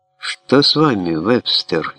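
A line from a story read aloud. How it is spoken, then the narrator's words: Frightened exclamation. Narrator (Russian): испуганно воскликнул Фаулер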